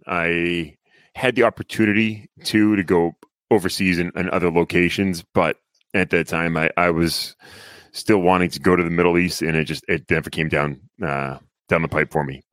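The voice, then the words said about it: Northern accent. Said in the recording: “Just keep that northern accent coming for me.”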